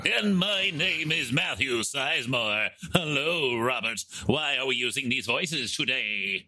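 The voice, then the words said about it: Cartoon villain voice. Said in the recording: “You sound like the villain from He-Man.”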